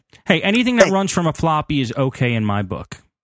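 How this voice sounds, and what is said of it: Sarcastic delivery. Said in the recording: “just being sarcastic.”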